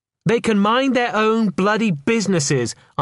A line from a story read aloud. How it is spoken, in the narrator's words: answered Fermin in a loud voice